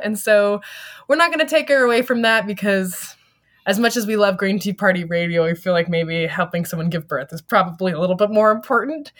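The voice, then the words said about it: Scratchy, slightly sick voice. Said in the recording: “my voice is a little bit scratchy this weekend ... I'm feeling a little bit sick.”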